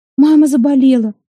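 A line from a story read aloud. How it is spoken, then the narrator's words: Wailing. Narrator (Russian): завопила Малка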